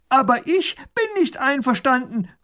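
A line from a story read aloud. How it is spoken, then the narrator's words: Called across. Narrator (German): ruft er herüber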